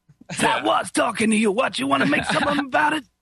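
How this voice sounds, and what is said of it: Put-on Brooklyn tough-guy accent. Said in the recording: “That's pretty good, man. You sound like my neighbors ... where Andrew lives, that's the normal speech ... I live in Brooklyn, man.”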